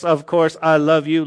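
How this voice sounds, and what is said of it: Robotic voice. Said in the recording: “talk like a robot voice”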